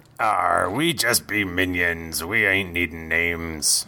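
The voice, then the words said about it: Exaggerated pirate accent. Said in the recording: “I only do one pirate accent.”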